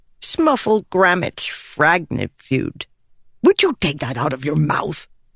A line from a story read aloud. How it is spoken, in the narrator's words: Wendell snapped